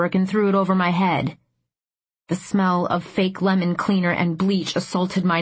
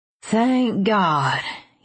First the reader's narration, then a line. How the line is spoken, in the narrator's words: he said with a hint of a southern drawl